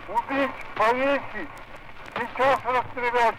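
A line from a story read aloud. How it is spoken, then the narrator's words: Crowd shouting. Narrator (Russian): кричали вокруг него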